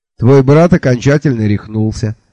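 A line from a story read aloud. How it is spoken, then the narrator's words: Businesslike tone. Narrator (Russian): деловым тоном сообщил он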